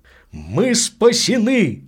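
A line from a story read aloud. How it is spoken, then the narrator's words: Joyful exclamation. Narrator (Russian): воскликнул Мускари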